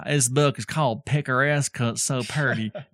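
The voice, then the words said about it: Poor put-on Southern accent. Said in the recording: “Is that like a Southern accent? ... That was a terrible Southern accent.”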